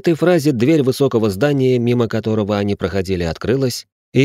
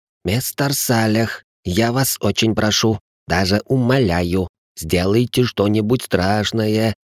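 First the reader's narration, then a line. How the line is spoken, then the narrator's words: Young man whispering through teeth. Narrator (Russian): прошептал молодой человек сквозь зубы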